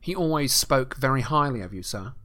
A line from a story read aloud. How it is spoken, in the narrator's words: said Malfoy quickly